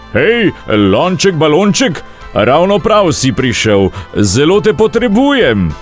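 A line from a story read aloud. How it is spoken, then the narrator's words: Calling out. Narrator (Slovenian): Zagledal je lonček in zaklical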